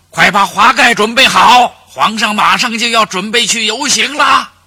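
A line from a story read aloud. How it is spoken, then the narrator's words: Shouting from outside. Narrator (Chinese): 司仪大臣在外面喊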